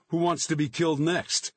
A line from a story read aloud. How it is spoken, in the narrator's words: shouting